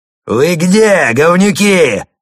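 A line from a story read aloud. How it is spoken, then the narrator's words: Yelled. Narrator (Russian): заорал он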